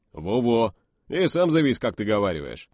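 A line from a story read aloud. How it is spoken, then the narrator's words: Pleased laughter. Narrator (Russian): довольно рассмеялся Рамуальдыч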